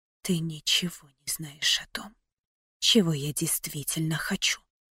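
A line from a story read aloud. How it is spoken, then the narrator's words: Whisper. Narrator (Russian): прошептала я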